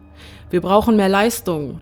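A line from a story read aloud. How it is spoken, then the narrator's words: Pilot shouting. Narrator (German): schreit der Pilot im Cockpit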